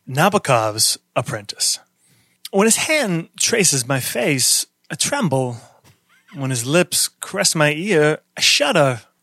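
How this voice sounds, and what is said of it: Alistair Cooke impression. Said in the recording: “Alistair Cook accent.”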